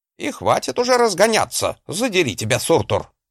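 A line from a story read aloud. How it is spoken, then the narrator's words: Barked shout. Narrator (Russian): гаркнул Гринольф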